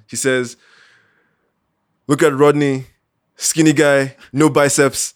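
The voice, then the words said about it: Put-on West African French accent. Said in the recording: “he's a French dude, French West African. So you imagine this in a West African French accent.”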